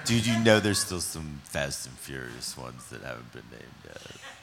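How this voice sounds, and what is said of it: Spot-on Sylvester Stallone impression. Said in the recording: “Are you doing a Stallone impression? It's fucking spot on.”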